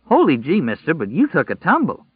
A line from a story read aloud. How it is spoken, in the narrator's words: Tom Cullen exclaimed